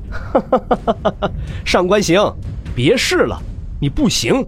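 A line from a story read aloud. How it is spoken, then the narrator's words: Loud laughter. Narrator (Chinese): 洛尘也是大笑出声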